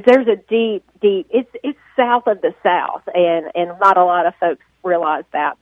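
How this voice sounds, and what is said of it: Southern US accent. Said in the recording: “I've always had this accent.”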